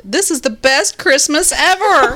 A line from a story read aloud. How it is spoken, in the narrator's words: her six-year-old woke up to all the booty and shouted